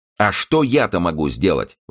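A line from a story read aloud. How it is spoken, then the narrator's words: Indignant exclamation. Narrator (Russian): воскликнула Оливия с возмущением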